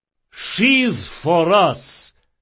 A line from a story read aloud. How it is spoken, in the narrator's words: boomed Rodanov